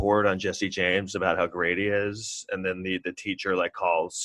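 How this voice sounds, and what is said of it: Usual voice. Nothing is said of it.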